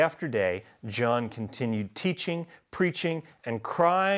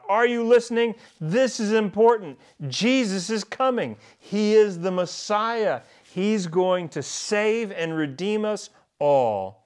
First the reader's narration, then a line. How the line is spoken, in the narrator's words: he would shout